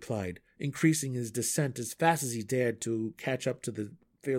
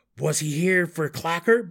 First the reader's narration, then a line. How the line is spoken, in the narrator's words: Belwar yelled back